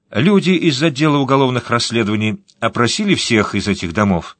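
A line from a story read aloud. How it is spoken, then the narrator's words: Plain. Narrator (Russian): спросила она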